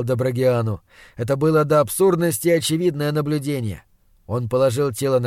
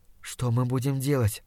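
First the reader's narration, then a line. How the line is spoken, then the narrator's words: Whisper that sounds loud. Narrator (Russian): прошептал я, хотя собственный голос показался мне ужасно громким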